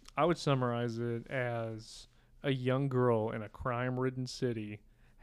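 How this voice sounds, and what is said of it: Usual voice. Nothing is said of it.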